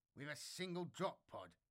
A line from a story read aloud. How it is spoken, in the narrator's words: Devere sneered